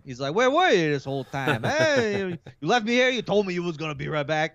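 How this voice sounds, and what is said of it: Put-on New York accent. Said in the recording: “he needed a New York accent.”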